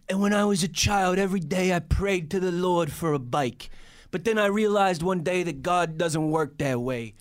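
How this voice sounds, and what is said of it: Put-on accent, unclear which. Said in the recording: “I don't know what accent I was trying to do.”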